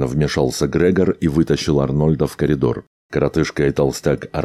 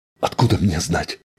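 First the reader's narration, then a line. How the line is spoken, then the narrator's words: Angry mutter. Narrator (Russian): сердито буркнул сирянин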